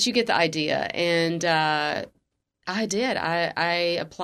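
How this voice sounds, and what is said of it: Usual voice. Nothing is said of it.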